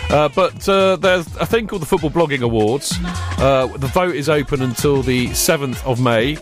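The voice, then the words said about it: Serious, formal tone of voice. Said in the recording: “I'm going to do it in my serious voice.”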